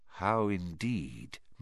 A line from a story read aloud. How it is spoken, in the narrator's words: muttered Dumbledore